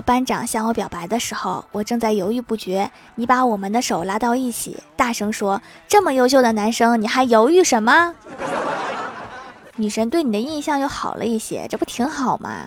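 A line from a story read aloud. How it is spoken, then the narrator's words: Soft whisper. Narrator (Chinese): 女同学低声细语说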